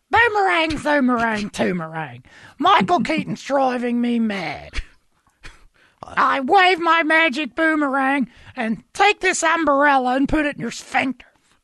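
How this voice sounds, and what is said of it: Impression of Lady Elaine puppet voice. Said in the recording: “That is my favorite impression, by the way... You like Lady Elaine?”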